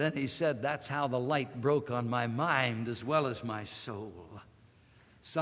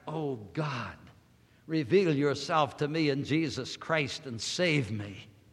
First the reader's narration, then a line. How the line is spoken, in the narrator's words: at what was the limit of his intellectual agony, he cried